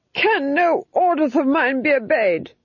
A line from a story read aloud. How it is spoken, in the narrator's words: he screamed